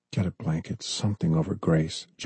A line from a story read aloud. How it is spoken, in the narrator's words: John whispered